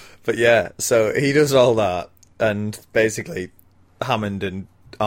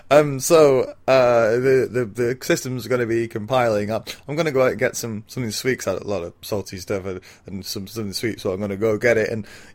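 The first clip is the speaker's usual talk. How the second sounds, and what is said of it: Juttery, stammery imitation of another person. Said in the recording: “that's a magnificent impression of a juttery, stammery Wayne Knight”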